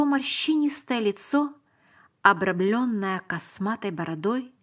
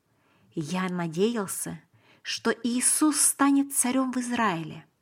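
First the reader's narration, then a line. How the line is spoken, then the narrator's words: Quiet confidential confession. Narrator (Russian): признался я и сказал тихо, как бы по секрету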